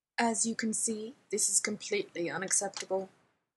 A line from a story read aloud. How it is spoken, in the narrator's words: Jeeves informed him coldly